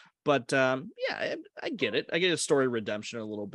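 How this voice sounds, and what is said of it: Usual voice. Nothing is said of it.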